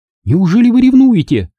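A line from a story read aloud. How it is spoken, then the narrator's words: Exclamation. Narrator (Russian): воскликнула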